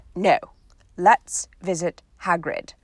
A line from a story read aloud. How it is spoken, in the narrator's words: said Harry firmly